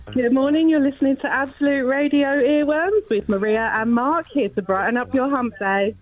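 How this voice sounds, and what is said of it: Exaggerated faux radio DJ voice. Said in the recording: “in that faux DJ voice”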